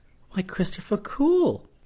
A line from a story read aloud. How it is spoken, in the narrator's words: she exclaimed